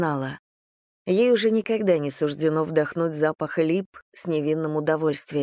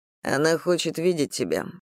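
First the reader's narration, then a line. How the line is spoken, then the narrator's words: Muttered. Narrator (Russian): пробормотал Отто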